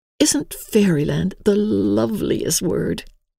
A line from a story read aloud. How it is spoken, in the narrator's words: said Emily, dreamily